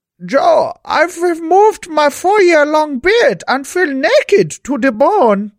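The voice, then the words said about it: Put-on Dutch accent. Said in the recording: “I find the Dutch accent the hardest one.”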